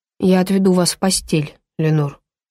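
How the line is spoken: Soft. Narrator (Russian): мягко сказал он

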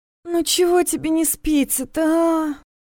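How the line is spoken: Moaning. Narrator (Russian): простонала

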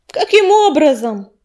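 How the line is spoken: Angry barking. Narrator (Russian): рявкнул ураган, чувствуя, как его изумление начинает уступать место закипающему гневу

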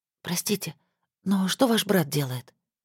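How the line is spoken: Whispered question. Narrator (Russian): спросила на всякий случай шепотом

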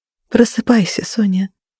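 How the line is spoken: Very tender. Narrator (Russian): максимально ласково сказала

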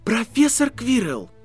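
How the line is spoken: Exclaiming. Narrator (Russian): воскликнул Гарри

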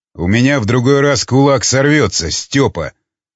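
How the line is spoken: Angry. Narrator (Russian): зло проговорил искатель

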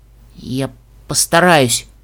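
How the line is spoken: Forced out. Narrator (Russian): выдавила единорожка

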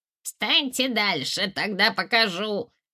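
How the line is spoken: Squeaky child's voice. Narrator (Russian): пропищал малютка

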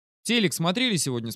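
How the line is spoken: Plain. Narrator (Russian): спросил я Таню

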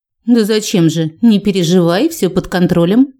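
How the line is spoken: Giggling. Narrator (Russian): хихикнула

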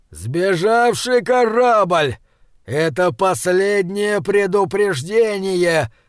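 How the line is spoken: Roaring headphones. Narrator (Russian): взревели наушники

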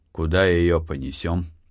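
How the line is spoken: Dry. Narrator (Russian): сухо сказал Артем

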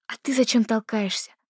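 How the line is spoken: Hissing. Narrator (Russian): зашипела Дарина

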